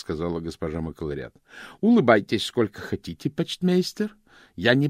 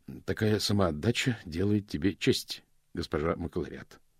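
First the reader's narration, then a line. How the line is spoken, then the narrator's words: Plain. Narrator (Russian): сказал мокрец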